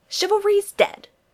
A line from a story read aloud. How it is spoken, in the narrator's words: she snaps